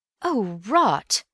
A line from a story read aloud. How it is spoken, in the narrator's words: said Bill uneasily